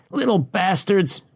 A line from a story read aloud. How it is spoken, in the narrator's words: he yelled